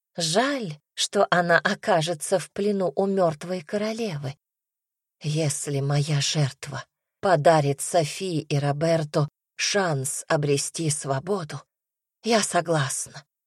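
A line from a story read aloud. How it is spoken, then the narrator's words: Whispered. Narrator (Russian): прошептала Маргарет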